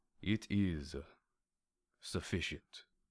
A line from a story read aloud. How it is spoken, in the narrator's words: he said calmly